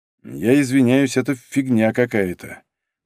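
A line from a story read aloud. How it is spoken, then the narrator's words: Gloomy pronouncement. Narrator (Russian): мрачно изрек Лашников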